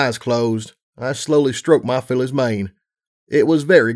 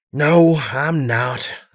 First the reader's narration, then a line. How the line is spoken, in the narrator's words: I sighed